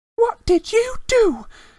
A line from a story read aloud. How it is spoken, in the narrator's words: She said fiercely